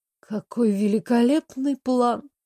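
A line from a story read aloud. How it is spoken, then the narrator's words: Sighing. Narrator (Russian): вздохнула Сандра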